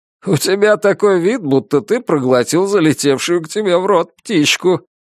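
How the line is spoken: Laughing. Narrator (Russian): Хью засмеялся и сказал

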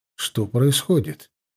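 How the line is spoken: Quiet inquiry. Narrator (Russian): тихим голосом поинтересовался я

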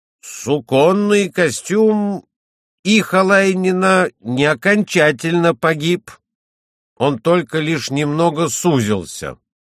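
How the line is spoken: Loud. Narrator (Russian): Один из перевозчиков громко сказал

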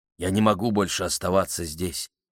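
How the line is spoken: Quiet. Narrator (Russian): тихо сказал он

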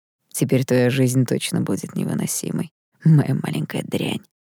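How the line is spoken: Said quietly. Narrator (Russian): тихо проговорил этот придурок

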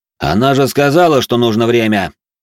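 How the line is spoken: Loud. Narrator (Russian): громко произнес я

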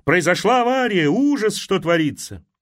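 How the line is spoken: Shouted. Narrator (Russian): Кто-то крикнул

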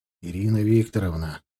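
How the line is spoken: Tired. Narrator (Russian): устало проговорил я

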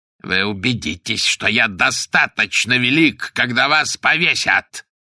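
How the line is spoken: Spiteful hoarse rasp. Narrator (Russian): прохрипел он злобно

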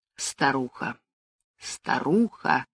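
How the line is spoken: Muttering. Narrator (Russian): пробормотала она

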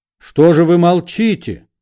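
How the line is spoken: Deafening bellow. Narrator (Russian): заорал Бендер с такой силой, что на столе кинодеятеля звякнула телефонная трубка

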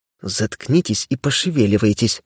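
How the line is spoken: Hissed through teeth. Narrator (Russian): сквозь зубы прошипела она

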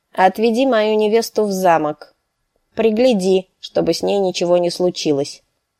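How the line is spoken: Curt, clipped prince. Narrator (Russian): отрывисто проговорил принц

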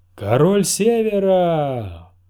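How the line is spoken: Roaring. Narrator (Russian): взревел Большой Джон

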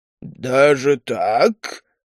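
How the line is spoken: Surprised growl. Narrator (Russian): удивленно рыкнул Грамнер

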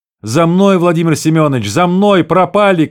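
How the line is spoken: Desperate shouting. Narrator (Russian): кричал отчаянный голос Вланга

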